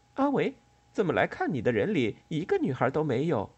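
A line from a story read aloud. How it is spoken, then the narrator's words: Cheerful, joking. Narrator (Chinese): 美代子也是心情愉快，向阿维开起玩笑来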